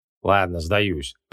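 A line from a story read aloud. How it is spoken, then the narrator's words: Grumbled. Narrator (Russian): проворчал маг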